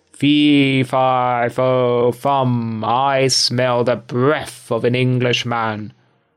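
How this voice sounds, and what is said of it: Terrible booming giant voice. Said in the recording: “he cried in a terrible voice”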